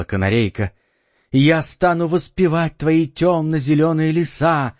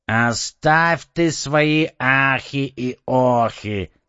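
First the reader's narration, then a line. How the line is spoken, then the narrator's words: Plain. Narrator (Russian): сказал попугай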